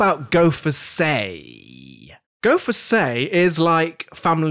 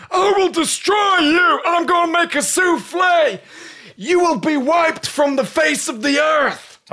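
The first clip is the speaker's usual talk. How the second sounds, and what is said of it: Bad put-on accent, shouting. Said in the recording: “Talking about bad accents, jeez.”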